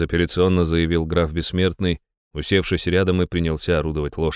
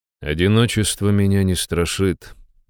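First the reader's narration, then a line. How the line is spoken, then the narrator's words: Calm reply. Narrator (Russian): спокойно ответил я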